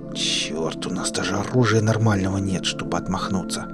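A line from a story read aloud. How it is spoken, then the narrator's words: Angry hiss. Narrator (Russian): Зло сплюнув, зашипел Клим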